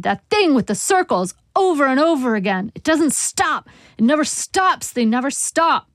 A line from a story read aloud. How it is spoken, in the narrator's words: he shouted